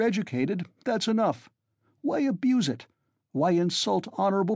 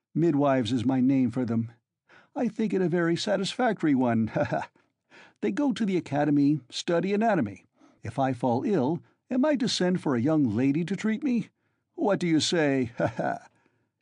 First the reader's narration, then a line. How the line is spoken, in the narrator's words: Ilya Petrovitch laughed, quite pleased with his own wit